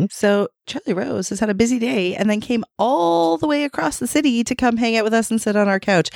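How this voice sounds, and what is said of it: Raspy, hoarse voice. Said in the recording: “I sound like I've had a weekend... losing my voice. I'm not sick, but I sound really raspy today”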